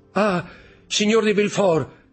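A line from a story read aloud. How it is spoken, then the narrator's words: Good man exclaiming. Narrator (Italian): esclamò il brav'uomo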